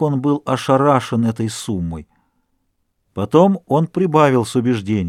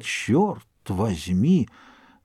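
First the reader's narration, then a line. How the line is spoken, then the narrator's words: Old man's astonished mutter. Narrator (Russian): Старик слегка свистнул от изумления и только пробормотал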